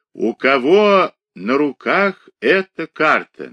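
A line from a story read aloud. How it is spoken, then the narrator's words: Solemn old man. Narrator (Russian): начал торжественно старик Шелестов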